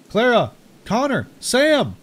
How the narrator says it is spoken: Wendell called out

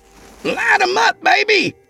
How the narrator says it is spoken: Craig yelled

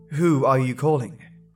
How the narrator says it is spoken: I asked

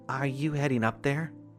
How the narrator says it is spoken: she asked

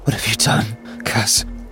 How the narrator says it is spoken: She breathed

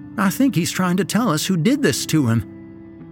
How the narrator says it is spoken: exclaimed Mrs

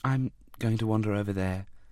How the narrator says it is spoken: she said softly

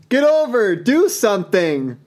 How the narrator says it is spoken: he yelled at you

